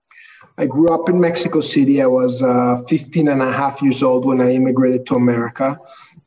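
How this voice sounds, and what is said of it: Mexican-accented English with slight twang. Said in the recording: “a little twang there, that's a Jewish Mexican accent.”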